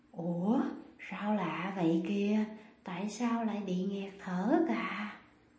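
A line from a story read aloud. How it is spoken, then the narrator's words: Hoarse voice. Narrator (Vietnamese): Cô ta nói giọng khàn khàn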